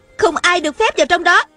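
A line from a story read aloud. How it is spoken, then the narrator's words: Shouting. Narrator (Vietnamese): giọng Hạ Thiết Thủ hét lên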